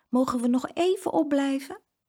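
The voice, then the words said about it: Sweet pleading little voice. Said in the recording (Dutch): “Met haar liefste stemmetje”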